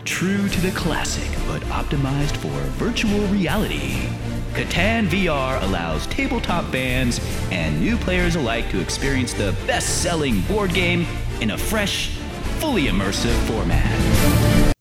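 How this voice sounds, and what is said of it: Announcer-style broadcaster voice. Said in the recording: “put on my broadcaster voice.”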